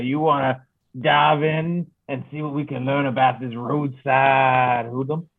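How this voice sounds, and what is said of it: Exaggerated New Orleans drawl. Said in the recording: “accent exaggeration? ... Where did that accent come from? ... you weren't talking like that. ... He was talking with a New Orleans drawl ... he's not the most exaggerated accent”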